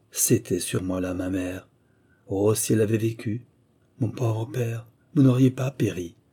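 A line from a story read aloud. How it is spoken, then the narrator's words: Deep sigh. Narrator (French): elle dit, en poussant un profond soupir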